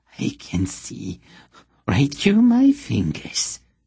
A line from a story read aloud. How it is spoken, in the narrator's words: he announced in a hissing lisp